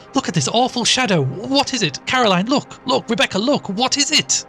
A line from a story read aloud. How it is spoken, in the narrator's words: suddenly she shrieked out